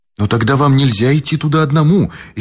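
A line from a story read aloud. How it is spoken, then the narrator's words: Frightened exclamation. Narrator (Russian): испуганно воскликнул Боб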